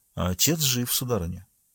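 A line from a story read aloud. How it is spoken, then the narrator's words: Quiet, restrained emotion. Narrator (Russian): Священник помолчал и, преодолев волнение, тихо добавил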